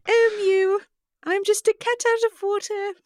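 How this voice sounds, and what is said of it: Cat character with British accent. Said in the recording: “everything sounds better in a British accent ... British Kitty in the City”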